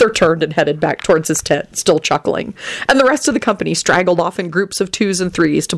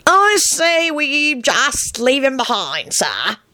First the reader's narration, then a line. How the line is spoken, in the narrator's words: croaked out the long-limbed Dillwiggle, a spindly, olive-colored man with hooded eyes that gave him a permanently melancholy expression